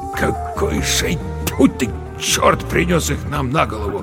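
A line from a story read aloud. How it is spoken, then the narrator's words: Muttering. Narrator (Russian): пробормотал Верещагин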